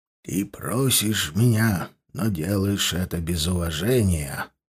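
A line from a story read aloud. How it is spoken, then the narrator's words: Sinister voice. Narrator (Russian): зловещим голосом сказал я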